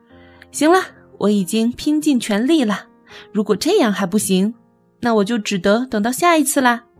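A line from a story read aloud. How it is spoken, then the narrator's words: Loud. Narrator (Chinese): 大声说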